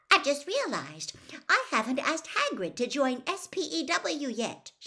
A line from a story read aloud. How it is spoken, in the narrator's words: said brightly